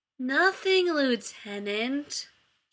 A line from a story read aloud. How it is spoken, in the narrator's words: Shepard drawled